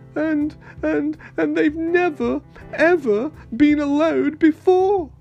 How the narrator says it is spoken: he sobbed

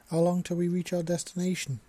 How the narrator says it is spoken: Jack asked

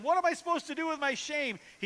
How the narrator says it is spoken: She pleads with him

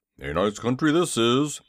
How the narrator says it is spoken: he grumbled

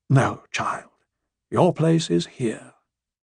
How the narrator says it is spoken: Lady Elissa shed a tear as well, gently, told her

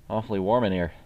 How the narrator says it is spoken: said, anxiously

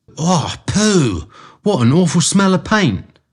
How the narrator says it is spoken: cried

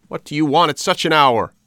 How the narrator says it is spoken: A little old man called angrily

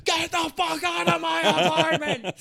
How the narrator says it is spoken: screaming at this guy

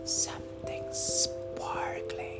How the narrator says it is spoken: whispered

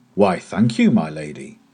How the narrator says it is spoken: cried in a surprised voice

